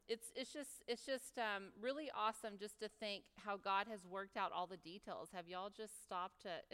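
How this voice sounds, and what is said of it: Noticeable unusual accent. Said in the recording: “is my accent really that crazy? Is it really weird?”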